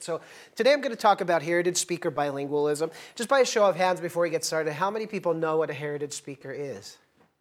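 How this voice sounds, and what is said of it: American accent, fast speech. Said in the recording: “I'm American... I'm probably going to speak fast... my accent”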